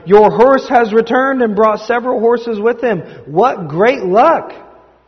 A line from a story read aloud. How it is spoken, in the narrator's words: The neighbors shouted